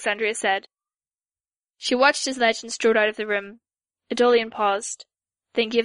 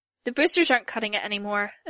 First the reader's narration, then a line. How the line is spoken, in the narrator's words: said